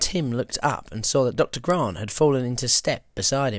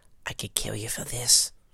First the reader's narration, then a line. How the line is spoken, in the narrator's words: Gennaro whisper